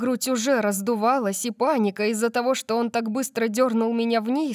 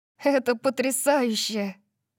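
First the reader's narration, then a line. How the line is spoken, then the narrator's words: Laughing, echoing. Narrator (Russian): засмеялась я, и мой голос эхом отозвался во мне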